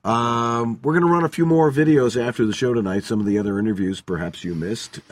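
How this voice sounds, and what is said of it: Hoarse, tired voice. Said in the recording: “I'm hoarse. ... I promise to be in better voice by then.”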